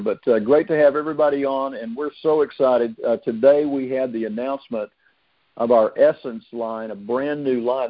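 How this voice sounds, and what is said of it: Slightly hoarse voice. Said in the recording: “I'm a little bit hoarse right now”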